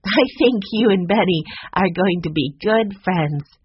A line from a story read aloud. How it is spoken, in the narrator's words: Jessie said with a laugh